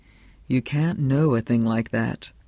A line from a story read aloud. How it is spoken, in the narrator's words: Roger Chatsworth said slowly and very kindly